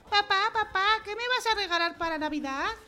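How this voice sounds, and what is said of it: Little girl's character voice. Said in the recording (Spanish): “voz de niña. Perdón, perdón. Recuerda que era voz de niña.”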